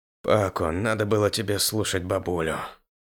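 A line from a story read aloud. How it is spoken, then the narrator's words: Sad, smiling. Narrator (Russian): улыбнулся печально Ос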